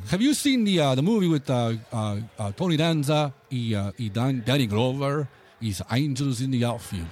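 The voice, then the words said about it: English spoken with an accent. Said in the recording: “you only hear your accent?”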